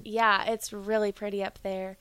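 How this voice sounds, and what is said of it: Carolina Southern accent comes through. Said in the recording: “your accent just came out. ... She let a little bit of that Carolina out. ... You went all the way out.”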